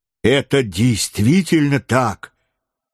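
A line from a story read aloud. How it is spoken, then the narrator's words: Exclaimed. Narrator (Russian): воскликнул майор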